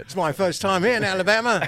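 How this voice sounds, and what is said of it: Put-on British accent, sounds Australian. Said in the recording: “British accent ... That sounds more Australian.”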